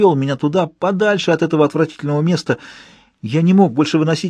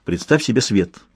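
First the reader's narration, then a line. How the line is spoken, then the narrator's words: Spoken quickly. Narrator (Russian): быстро проговорил он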